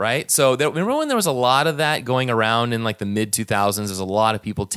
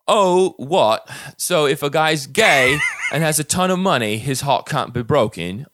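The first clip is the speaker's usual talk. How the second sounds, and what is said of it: Put-on English Cockney accent. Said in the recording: “I couldn't help but read this like a... I guess it would be like an English Cockney accent ... you have to immediately launch into a Dick Van Dyke”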